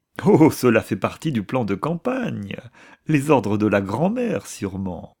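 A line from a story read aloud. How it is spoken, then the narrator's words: Laughing reply. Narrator (French): répondit Lefferts en riant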